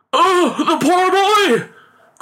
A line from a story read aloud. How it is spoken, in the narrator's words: cried the father in alarm